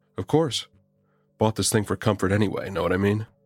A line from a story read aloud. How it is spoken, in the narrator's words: chuckled